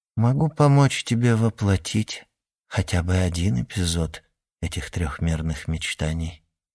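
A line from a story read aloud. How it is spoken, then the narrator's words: Quiet. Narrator (Russian): тихо сказала она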